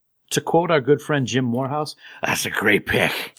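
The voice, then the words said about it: Strained, choking-sounding voice imitation. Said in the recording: “That's a terrible impersonation. ... you sounded like you were choking or dying”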